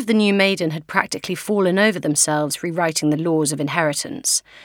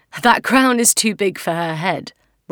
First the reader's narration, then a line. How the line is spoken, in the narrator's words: Rob laughed good-naturedly